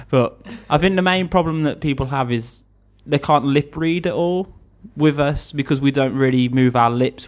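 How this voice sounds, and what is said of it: Mumbly regional English accent. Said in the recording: “my accent is it's known as the worst accent in England... We're a very mumbly accent. We don't really pronounce all the words. We change A's for O's”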